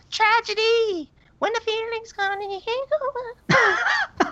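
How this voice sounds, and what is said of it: Singing in a high falsetto. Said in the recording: “that was good falsetto”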